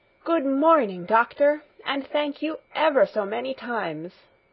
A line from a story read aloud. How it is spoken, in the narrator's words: exclaimed in the joy of her heart